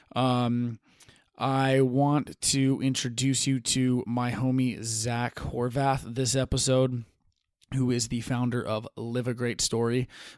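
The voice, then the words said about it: Sleepy-sounding voice. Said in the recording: “It's getting a little late over here, so I apologize if my voice sounds sleepy.”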